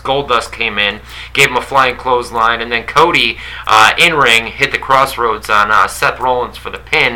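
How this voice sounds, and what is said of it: New York accent. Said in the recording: “I think that's my New York accent, where I say Rollins ... I blame it on my New York accent”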